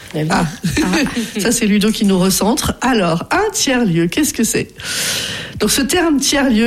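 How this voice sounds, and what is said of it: Usual voice. Nothing is said of it.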